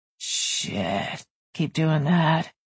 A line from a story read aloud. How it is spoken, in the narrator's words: he murmured in a husky voice